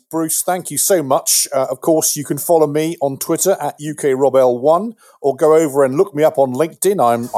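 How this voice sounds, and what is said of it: English accent. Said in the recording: “I am the Englishman in a US EMS uniform ... this accent came out of that uniform ... if you have an English accent”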